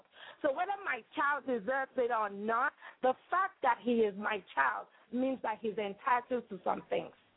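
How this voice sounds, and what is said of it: Nigerian West African accent. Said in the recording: “I hear a beautiful accent. ... Nigeria. West ... Africa.”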